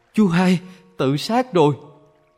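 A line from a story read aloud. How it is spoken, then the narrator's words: Horrified scream. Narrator (Vietnamese): có người kinh hoàng thét lên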